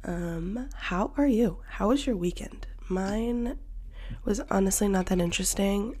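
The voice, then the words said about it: Nasal, congested voice. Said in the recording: “I sound like a little nasally”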